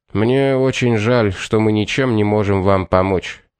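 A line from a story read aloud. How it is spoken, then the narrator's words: Calm, polite, exhausted and shocked. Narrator (Russian): произнес Хэтч уже вполне спокойно и вежливо, но так и не смог хоть как-то скрыть свои изнеможения и шок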